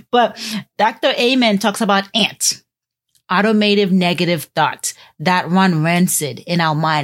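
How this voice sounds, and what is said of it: Haitian accent. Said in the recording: “My Haitian accent, I have to say Danielle instead of Danielle. ... It is some things my Haitian accent won't allow me to do.”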